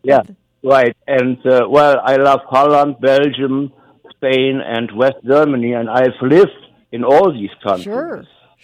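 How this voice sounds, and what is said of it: Western European accent. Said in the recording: “you can tell by my accent that I'm really a Western European”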